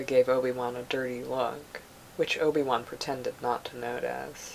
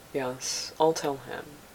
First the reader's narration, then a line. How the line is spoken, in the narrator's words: Obi-Wan said